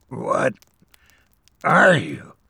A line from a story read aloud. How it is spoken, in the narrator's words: barely managing to croak